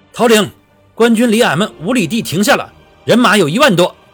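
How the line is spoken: Loud urgent report. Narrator (Chinese): 探子在马上大声禀报道

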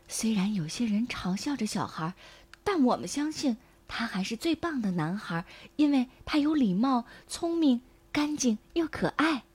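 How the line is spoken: Soft. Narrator (Chinese): 父母他们轻声说

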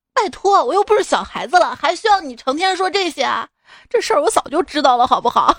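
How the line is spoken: Exasperated yelling. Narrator (Chinese): 忍不住想跟他们吼，我说

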